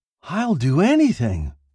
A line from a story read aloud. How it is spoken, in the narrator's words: cried